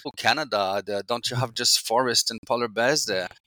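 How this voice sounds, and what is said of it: Put-on German accent. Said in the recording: “my bad German accent... That's quite good, actually.”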